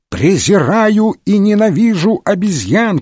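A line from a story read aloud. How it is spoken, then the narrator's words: Shouting. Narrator (Russian): кричал Дюпен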